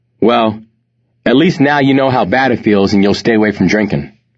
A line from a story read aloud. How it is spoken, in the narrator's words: she said